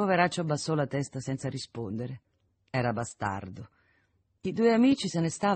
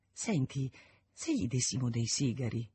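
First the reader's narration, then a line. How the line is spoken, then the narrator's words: Low-voiced suggestion. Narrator (Italian): suggerì a bassa voce Isonet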